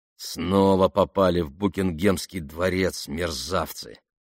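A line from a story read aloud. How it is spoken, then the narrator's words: Through gritted teeth. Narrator (Russian): процедил таксист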